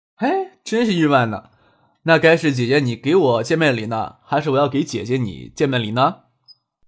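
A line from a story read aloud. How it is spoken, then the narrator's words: Laughing. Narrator (Chinese): 未来笑着说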